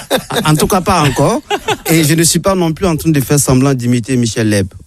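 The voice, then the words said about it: Exotic, Bamako-evoking French accent. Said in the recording (French): “vu mon accent exotique ... l'émission n'a pas été délocalisée à Bamako”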